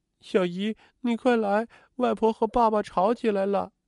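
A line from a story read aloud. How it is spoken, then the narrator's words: Crying child. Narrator (Chinese): 壮壮在哭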